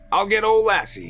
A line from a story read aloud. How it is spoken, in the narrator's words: he shouted